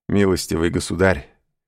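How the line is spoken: Laughing objection. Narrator (Russian): возразил, смеясь, англичанин

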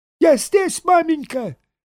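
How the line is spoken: Squeaked. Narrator (Russian): пискнул Саранин

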